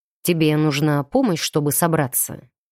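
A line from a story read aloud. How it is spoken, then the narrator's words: Dry, curt. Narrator (Russian): уточнил он сухо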